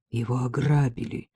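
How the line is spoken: Dull muffled voice. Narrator (Russian): сказала она глухо

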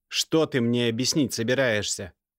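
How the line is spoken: Barked. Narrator (Russian): рявкнул

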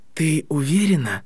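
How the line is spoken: Strained, choked voice. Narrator (Russian): произнес Гарри сдавленным голосом

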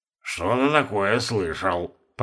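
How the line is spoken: Mumbling. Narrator (Russian): промямлил он

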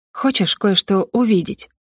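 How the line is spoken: Intriguing whisper. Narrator (Russian): спросила я шепотом, пытаясь заинтриговать Фолина

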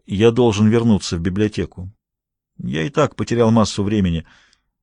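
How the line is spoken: Dry. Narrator (Russian): Филипп сказал сухо

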